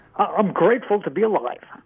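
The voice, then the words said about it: Sarcastic tone of voice. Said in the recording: “What was that voice? ... Kind of sarcastic voice. ... It sounded a bit sarcastic.”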